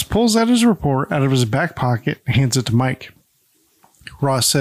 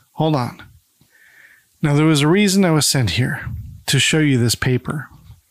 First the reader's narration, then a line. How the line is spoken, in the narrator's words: Ross sighs and says